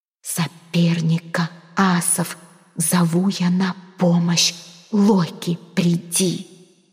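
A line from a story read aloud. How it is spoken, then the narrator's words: Careful whispered incantation. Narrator (Russian): зашептала она, старательно выговаривая слова заклинания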